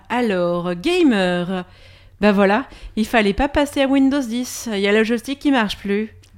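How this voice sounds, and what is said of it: Put-on Québécois French accent. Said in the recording (French): “C'était quoi cet accent québécois ? ... C'est l'accent québécois, en plus, ouais.”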